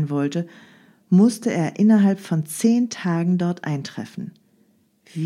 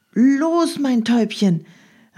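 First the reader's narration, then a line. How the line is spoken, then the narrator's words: Repeated encouraging call. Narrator (German): rief er dem treuen Tier immer wieder zu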